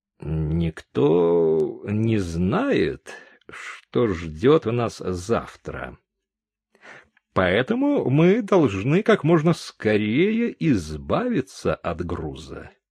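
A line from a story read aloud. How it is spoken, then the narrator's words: Slow, thoughtful. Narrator (Russian): Он медленно, как бы задумчиво, сказал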